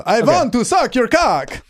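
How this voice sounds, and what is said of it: Horny Dracula voice, a bit Italian. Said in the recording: “this is my impersonation of a horny Dracula ... That's not bad. It sounds a bit Italian.”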